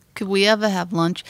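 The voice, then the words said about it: Good Boston accent. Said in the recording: “there's somebody who's doing a good Bostonian accent”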